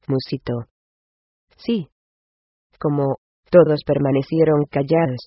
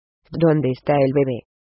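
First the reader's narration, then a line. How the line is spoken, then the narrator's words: Hoarse question. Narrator (Spanish): preguntó Frank con voz ronca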